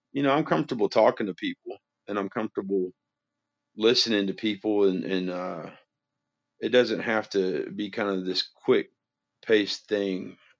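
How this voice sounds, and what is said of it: Southern American accent. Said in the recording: “exclusive to the South ... that's what you got, right? A nice accent”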